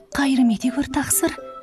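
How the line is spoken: Trembling pleading voice. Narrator (Kazakh): дейді дауысы дірілдеп жалынып

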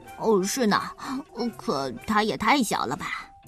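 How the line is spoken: Mumbling while eating. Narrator (Chinese): 老虎边吃边嘟囔

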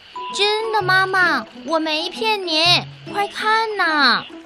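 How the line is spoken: Young animal's insistent shout. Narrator (Chinese): 小河马依旧嚷道

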